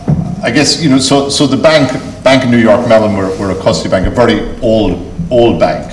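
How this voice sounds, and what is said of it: Irish Cork accent. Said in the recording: “I can't say it in a French accent. I've got my best Cork accent.”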